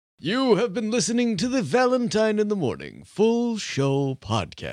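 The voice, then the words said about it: Put-on radio announcer voice. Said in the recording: “That's my radio voice.”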